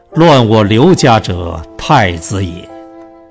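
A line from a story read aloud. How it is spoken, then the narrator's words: Sighing. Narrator (Chinese): 乃叹曰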